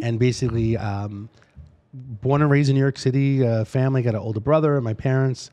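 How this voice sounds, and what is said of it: Slight East Coast American accent. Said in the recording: “My accent is a little bit, uh, a little East Coast though.”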